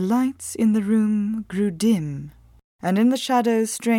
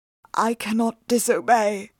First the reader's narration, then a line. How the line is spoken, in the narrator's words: said in a choked voice